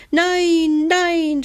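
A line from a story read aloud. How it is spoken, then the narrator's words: Screamed. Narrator (German): schrie Hebelmann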